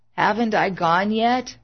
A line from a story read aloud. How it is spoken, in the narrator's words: His eyelids fluttered and his faint voice croaked